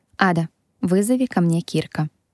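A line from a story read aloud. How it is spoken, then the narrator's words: Decisive tone. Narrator (Russian): проговорила решительным тоном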